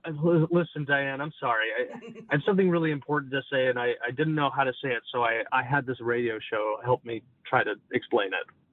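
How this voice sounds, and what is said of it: Irish accent. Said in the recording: “tell us in your Irish accent ... he has an Irish accent”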